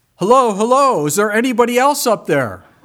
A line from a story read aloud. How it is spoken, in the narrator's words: he yelled out